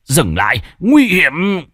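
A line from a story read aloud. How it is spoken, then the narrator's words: Cold smirk. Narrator (Vietnamese): cười nhạt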